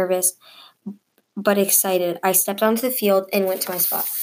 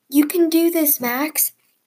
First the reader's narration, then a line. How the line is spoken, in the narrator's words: yelled Coach Shanti to me